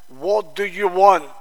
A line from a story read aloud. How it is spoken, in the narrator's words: the monk in a gruff voice, asked